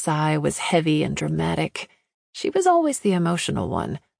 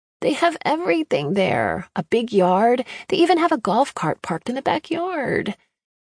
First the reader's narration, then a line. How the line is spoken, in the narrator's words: she whined